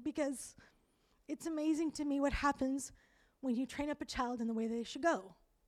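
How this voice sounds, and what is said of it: Emotional, choked-up voice. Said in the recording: “I'm getting emotional”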